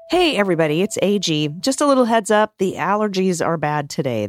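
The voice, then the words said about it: Slightly raspy, froggy voice. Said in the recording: “I've got a little frog in my throat or it sounds like, I'm a little bit raspy”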